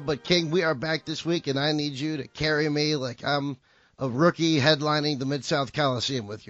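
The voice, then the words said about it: Hoarse, losing voice. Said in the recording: “still somewhat losing my voice ... was a little sick, as you can still hear right now”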